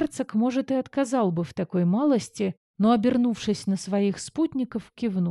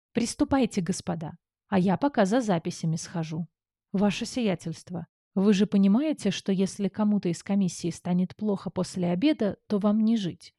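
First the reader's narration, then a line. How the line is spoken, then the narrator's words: Quiet question. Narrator (Russian): тихо поинтересовался герцог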